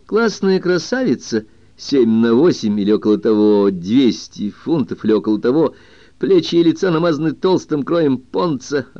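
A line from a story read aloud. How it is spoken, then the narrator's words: Joyful laugh. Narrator (Russian): радостно засмеялся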